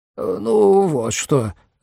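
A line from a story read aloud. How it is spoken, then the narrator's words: Confused muttering. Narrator (Russian): растерянно пробормотал Хаджиган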